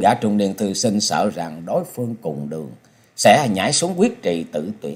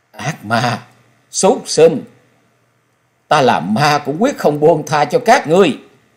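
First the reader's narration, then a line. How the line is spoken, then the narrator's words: Grief-stricken ghostly shriek. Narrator (Vietnamese): Lúc này mặt của Xảo Ngọc trong thê lương bi thiết, giọng của nàng rít lên như lệ quỷ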